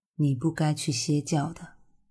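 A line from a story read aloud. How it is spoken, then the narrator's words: Soft voice. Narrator (Chinese): 古欣欣轻声的说道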